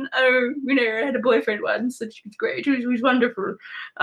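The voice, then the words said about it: Dumbledore impression. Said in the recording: “That was my Dumbledore impression.”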